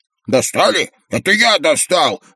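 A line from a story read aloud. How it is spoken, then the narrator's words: Yelled. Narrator (Russian): заорал плевун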